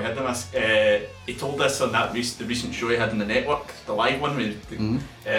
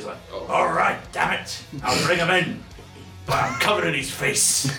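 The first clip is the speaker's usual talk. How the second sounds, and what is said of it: Imitates another person's voice. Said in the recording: “trying my best Vince voice here ... please don't do the Vince voice again.”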